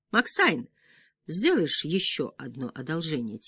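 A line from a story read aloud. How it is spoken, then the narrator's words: Quiet question. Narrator (Russian): тихо спросил я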